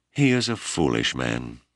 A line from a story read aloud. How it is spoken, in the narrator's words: Malama reflected sadly